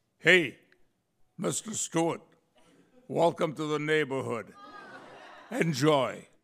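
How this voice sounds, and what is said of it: Put-on local accent, not polished. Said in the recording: “I apologize for the accent because I'm still working on it.”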